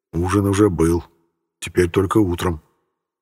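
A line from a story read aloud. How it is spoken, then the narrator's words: Saddened mutter, brigade commander. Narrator (Russian): пробормотал взгрустневший после моей отповеди комбриг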